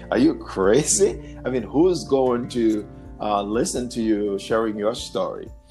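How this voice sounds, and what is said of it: Haitian accent. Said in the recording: “your Haitian accent”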